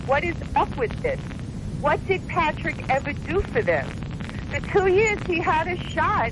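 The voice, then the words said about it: New York accent. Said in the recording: “you can hear by my accent that that's where I'm from originally... New York”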